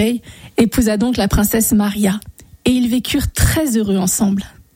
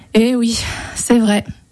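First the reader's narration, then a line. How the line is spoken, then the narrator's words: Sighed. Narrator (French): soupira le chasseur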